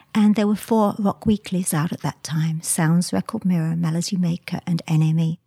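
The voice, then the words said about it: English accent. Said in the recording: “this was in England, hence the accent”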